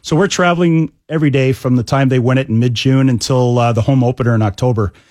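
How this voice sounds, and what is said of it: Canadian accent. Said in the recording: “obviously you're a Canadian, judging by your accent.”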